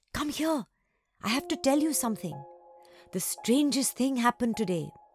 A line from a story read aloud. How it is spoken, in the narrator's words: she whispered through the gate